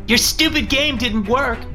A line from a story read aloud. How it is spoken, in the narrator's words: Christina yelled up the stairs